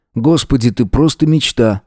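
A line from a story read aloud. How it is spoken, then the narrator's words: Smirking grunt. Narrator (Russian): хмыкнул Эзра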